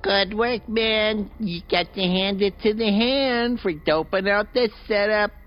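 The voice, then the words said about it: Falsetto dummy voice. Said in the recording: “a ventriloquist dummy issues orders in a falsetto voice”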